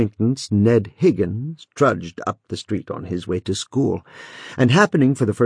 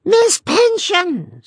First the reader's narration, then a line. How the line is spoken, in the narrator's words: screamed the child